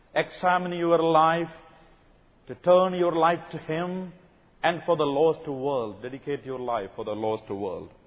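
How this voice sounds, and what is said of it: South Indian English accent. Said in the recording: “from my accent you can understand, I come from South India.”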